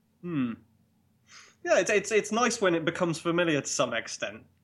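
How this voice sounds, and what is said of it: English accent. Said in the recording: “I sound very, very English”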